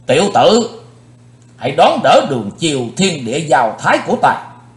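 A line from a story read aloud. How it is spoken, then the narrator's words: Shouted. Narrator (Vietnamese): Hét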